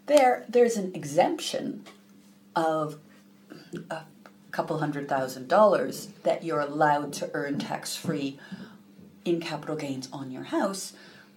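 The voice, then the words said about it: American accent. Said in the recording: “as you can hear from my accent, I'm originally from the US”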